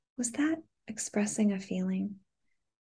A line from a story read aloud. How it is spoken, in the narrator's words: I whispered in her ear